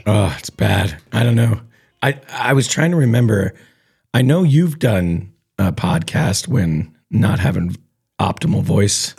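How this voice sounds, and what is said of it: Hoarse voice. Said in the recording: “sound a little hoarse today.”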